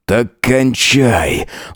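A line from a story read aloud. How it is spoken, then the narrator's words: Breathed close into ear. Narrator (Russian): выдохнул ему на ухо Джек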